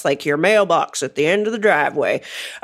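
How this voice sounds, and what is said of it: Put-on Deep South American accent. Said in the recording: “I did an accent that has nothing to do with Western Pennsylvania ... You went deep south. ... I went deep south. It's a really hard accent to do.”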